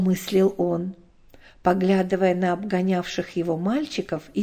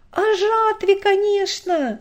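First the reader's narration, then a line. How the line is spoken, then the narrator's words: Eager boy's shout. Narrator (Russian): бойко выкрикнул всегда нетерпеливый 12-летний Славик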